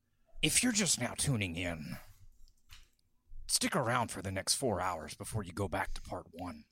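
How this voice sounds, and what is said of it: Imitates another person's voice. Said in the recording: “That's a really good Dan Carlin.”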